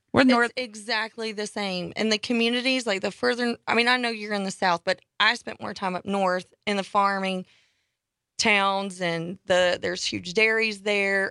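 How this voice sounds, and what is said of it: Southern US Georgia accent. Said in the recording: “Where's your accent from, though? ... Georgia.”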